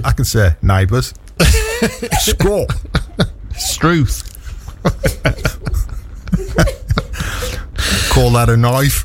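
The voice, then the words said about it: Put-on Australian accent. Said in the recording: “It's the only accent I can do ... I'll pick up the Australian accent, so it's Yorkshire Australian”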